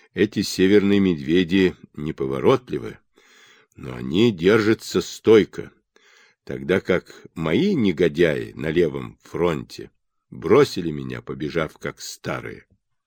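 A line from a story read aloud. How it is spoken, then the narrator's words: Through gritted teeth. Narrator (Russian): процедил сквозь зубы король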